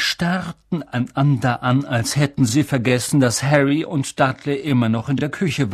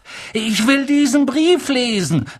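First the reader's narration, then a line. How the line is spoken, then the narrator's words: Loud. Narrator (German): sagte er laut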